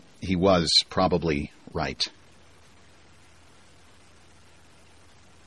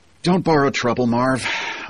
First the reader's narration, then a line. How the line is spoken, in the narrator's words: sighed